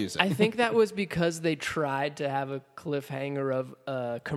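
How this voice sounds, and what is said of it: Usual voice. Nothing is said of it.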